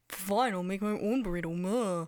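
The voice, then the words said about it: Imitates her own voice. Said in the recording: “It's a good impression of yourself”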